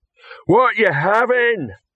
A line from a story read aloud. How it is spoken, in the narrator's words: roared Rock